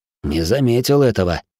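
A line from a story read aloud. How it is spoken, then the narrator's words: Snorting grunt. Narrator (Russian): хмыкнул Доминик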